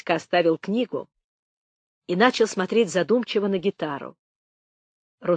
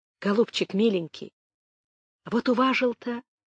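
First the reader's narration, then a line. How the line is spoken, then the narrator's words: Breathless whisper. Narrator (Russian): шептал он задыхавшимся голосом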